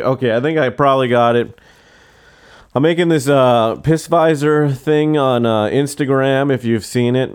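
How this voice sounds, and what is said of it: Strained, worn-out hoarse voice. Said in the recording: “Everyone really strains my voice ... My voice is shot right now.”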